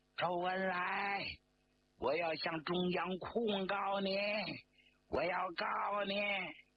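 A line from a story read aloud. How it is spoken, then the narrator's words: Angry shouting. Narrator (Chinese): 张国焘边走边冲着周恩来吼叫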